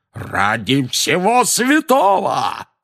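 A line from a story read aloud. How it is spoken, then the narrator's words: Roared. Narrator (Russian): взревел дядя Вернон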